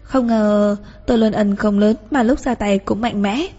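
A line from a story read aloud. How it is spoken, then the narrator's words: Soft amused laugh. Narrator (Vietnamese): Bồ Lý khẽ lắc đầu cười nói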